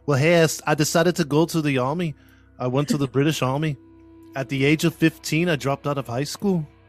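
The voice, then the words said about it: American attempting British accent. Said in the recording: “I can't do a Scottish accent, but I'm assuming he had a London accent or like a British accent ... Sounds Irish ... not bad. For a U.S. American guy, not bad.”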